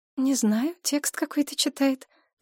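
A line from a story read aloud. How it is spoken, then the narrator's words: Whisper. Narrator (Russian): прошептала Мария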